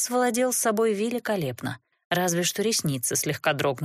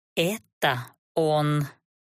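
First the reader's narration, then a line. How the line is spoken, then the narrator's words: Strangled growl. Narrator (Russian): сдавленно прорычала я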